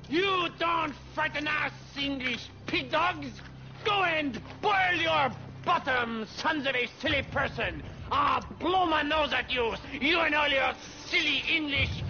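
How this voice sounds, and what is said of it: Outrageous put-on French accent. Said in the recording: “I'm French. Why do you think I have this outrageous accent”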